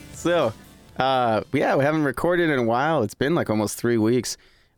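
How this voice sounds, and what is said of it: Slightly raspy, smoky voice. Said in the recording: “kind of got a little bit of that rasp in the back of my throat still ... That sexy, smoky radio voice”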